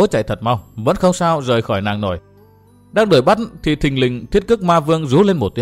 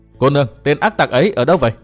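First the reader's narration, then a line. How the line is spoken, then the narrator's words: Laughing loudly, asking. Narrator (Vietnamese): chàng dừng tay cười lớn hỏi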